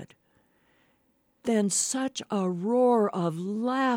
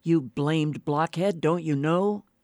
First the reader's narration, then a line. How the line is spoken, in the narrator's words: answered